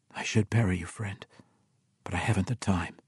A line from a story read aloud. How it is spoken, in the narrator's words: he whispered